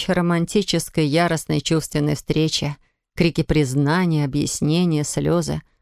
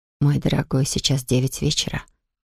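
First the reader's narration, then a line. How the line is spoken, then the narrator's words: Whisper. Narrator (Russian): прошептала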